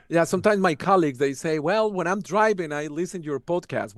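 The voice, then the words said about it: Kentucky accent. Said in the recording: “my Kentucky accent or my We Are accent”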